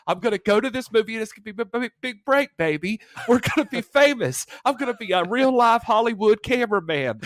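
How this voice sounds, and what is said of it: Put-on Southern American accent. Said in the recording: “I love that you gave him a Southern accent and not a Baltimore accent.”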